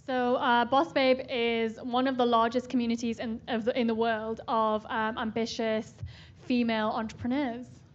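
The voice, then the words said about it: Newcastle English accent. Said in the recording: “I can tell from your accent you're not from SF ... I'm from a tiny place called Newcastle ... right near Scotland in the UK”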